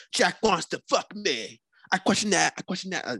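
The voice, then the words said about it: Put-on Cockney accent. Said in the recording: “Cockney accent.”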